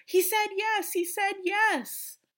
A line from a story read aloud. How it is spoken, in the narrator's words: Casey excitedly says